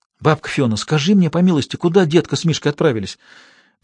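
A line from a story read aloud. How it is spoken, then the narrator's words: Whispered. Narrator (Russian): зашептала Надюшка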